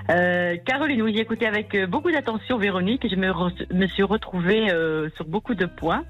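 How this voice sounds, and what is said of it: Southern French accent. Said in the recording (French): “vous avez l'accent du Sud.”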